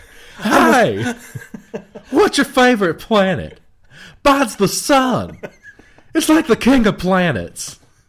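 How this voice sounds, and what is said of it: Impression of a science show host. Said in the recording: “an impersonation of him hosting, a science show or something, about planets ... It was just too perfect ... I love your impression of it ... You do it really well. That's pretty good.”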